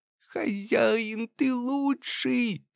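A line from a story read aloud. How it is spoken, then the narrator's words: Squeak. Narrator (Russian): пискнул Крыс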